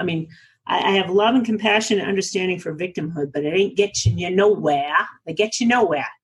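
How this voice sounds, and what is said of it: New England accent. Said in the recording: “did you hear my New England accent? I am from New England originally”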